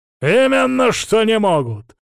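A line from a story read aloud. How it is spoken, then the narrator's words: Bark. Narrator (Russian): рявкнул отец Савелий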